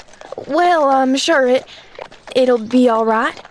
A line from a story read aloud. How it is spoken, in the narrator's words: Nancy managed to stammer